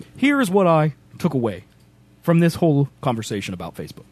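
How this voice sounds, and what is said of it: Imitates another person's voice, fast with pauses. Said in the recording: “my Barack Obama impression ... You're still talking fast. ... With more pauses in between the words.”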